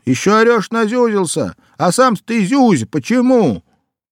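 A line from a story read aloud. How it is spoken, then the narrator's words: Shouted. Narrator (Russian): кондуктор крикнул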